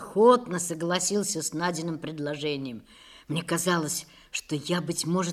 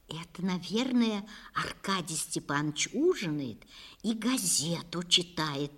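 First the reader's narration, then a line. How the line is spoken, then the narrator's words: Close whisper. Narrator (Russian): шепотом сказала Надя, приложив теплые губы вплотную к моему уху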